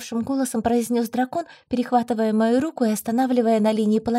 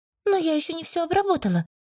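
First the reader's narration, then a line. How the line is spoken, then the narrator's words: Indignant. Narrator (Russian): произнесла возмущенно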